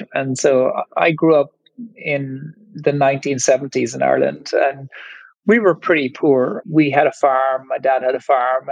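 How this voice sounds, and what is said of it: Irish accent. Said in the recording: “you might hear from my accent that I'm Irish”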